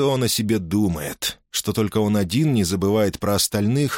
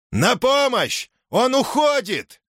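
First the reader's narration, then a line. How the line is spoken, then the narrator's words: Shouted upward. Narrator (Russian): крикнул наверх стражник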